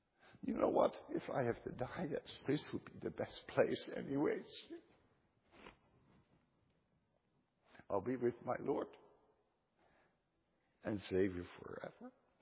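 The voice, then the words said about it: Emotional, moved voice. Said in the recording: “I know I'm a little bit emotional”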